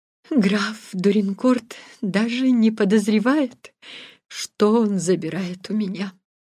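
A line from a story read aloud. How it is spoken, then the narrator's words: Sad. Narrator (Russian): грустно сказала она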